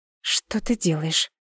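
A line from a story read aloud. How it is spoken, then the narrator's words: Whispered. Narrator (Russian): шепнула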